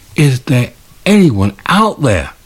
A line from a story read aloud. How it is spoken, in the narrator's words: croaked the young man